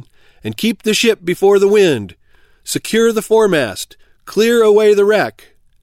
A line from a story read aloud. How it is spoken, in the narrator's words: cried the captain